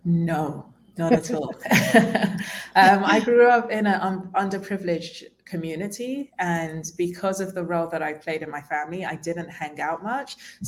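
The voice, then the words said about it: Posh-sounding accent. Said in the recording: “you can hear with my accent, I'm not very hood in terms of using slangs ... they would say to me that I'm too posh”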